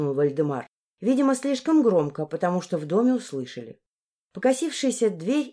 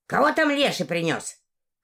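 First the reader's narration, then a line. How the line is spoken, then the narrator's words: Shout. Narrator (Russian): крикнула она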